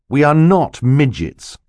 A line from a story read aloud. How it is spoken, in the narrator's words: Klaus said sternly